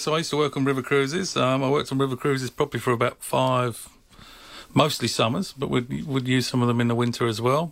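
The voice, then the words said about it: Accent picked up overseas. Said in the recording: “You've had a lot of experience over there. We can tell by your accent.”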